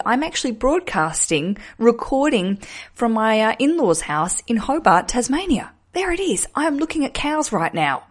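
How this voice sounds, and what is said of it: Australian accent. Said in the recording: “Does my accent sound stronger? ... We have not picked up any UK twangs ... Any rounding of vowels ... you can't take the Australian out of the Australian”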